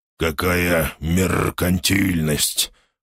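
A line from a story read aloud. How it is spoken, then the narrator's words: Hoarse, grinning. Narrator (Russian): прохрипел тот с широкой ухмылкой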